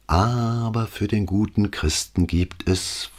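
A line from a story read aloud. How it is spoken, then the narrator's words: Honey-sweet voice. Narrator (German): fuhr sie mit honigsüßer Stimme fort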